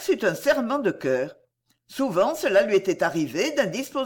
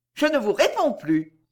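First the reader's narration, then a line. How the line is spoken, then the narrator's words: Curt, dry. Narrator (French): fit Madeleine sèchement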